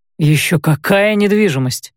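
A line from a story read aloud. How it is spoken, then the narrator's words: Snorting. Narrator (Russian): фыркнул Рэй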